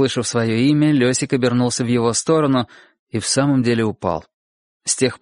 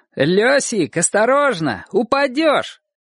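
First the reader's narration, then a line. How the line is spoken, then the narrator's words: Boy's joking shout. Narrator (Russian): один из соседских мальчишек крикнул ему в шутку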